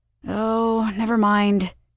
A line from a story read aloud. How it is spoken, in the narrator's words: she sighed